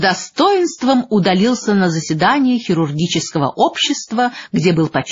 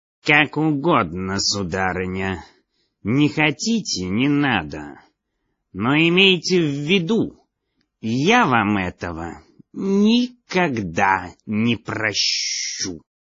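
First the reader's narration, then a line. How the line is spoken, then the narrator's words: Dry. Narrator (Russian): сухо поклонился и сказал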